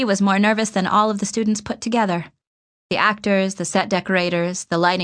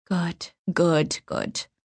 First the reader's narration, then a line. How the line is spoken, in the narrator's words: Davenport muttering under his breath